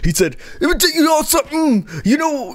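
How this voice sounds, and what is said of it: Imitates another person's voice. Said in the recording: “I'm trying to do a Scott Steiner impression. ... I can't do it.”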